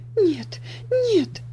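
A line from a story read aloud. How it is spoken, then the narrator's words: Sobbing girl. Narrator (Russian): всхлипывала девочка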